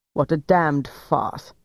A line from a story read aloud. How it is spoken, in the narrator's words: Weber said scornfully